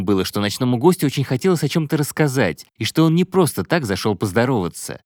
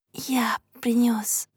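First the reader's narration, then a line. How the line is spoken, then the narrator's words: Uncertain whisper. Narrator (Russian): прошептал Джайв неуверенно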